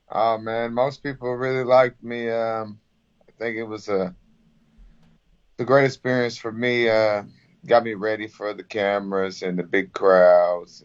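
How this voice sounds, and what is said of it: Very strong Southern accent. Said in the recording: “you have a very strong southern accent.”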